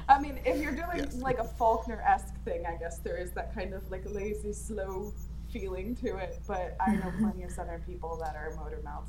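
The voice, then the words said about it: Fast-talking Louisiana accent. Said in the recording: “I grew up in Louisiana ... talk like a motor ... Louisiana accent, I sound like this, and I talk this goddamn fast”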